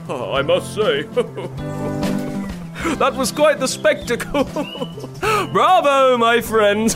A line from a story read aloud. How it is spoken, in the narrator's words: Horatio exclaimed